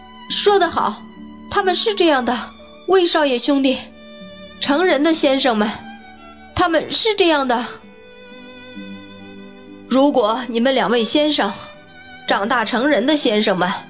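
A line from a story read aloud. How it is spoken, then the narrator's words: Calling out. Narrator (Chinese): 汉姆叫道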